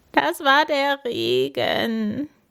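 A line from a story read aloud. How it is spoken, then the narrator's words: Sobbing. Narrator (German): schluchzt Paul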